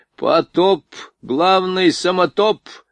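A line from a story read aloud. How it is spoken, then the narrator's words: Blurted joke, loud laughter. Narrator (Russian): выпалил генерал и сам громко захохотал своей остроте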